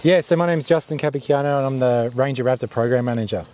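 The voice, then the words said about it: Australian accent. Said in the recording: “you have an accent ... I'm definitely from Australia.”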